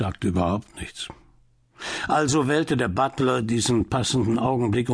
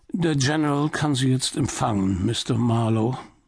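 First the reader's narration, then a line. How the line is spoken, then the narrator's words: Butler's flat expressionless voice. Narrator (German): Der Butler sagte mit ausdrucksloser Stimme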